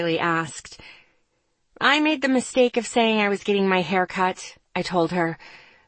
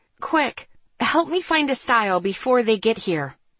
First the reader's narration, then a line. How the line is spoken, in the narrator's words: I hissed